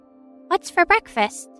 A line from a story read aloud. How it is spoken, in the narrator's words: She chirps